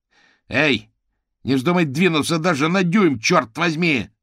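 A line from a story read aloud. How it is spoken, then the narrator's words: Shouted. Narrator (Russian): заорал гусеница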